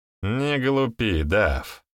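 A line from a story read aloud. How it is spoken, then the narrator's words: Grumbling. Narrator (Russian): проворчал Реймонд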